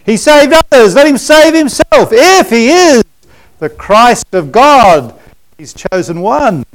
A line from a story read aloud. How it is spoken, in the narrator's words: cried out